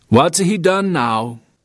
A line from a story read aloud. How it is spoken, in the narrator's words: his father ask in a flat voice